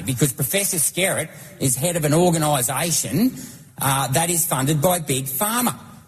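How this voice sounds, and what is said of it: Australian accent. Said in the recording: “we could listen to an Australian accent all day? Just, man, that's a great accent.”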